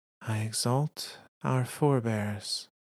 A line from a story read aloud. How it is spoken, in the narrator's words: Shayura says softly